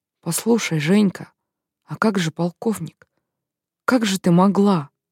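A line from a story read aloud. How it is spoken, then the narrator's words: Whispered question. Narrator (Russian): Рита шепотом спросила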